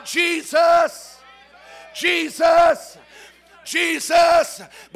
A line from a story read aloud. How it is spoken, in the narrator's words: But you got to shout out